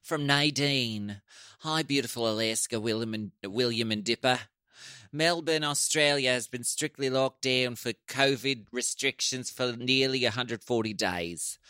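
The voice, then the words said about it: Put-on Australian accent. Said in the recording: “put on your Courtney voice? ... That really hurt. That's really hard to do. ... hides that and does an American voice”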